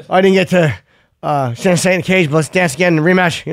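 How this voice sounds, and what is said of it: Poor imitation of another person's voice. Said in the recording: “Terrible Stipe impression.”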